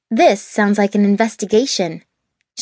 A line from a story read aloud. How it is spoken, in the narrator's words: she said firmly